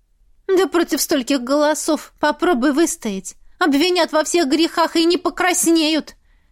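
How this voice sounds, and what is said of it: Mocking imitation of Rogneda's voice. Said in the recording (Russian): “Передразнивала я голос Рогнеды.”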